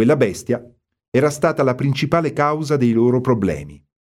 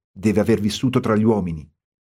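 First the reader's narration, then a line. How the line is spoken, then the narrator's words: Murmur. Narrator (Italian): mormorò Bill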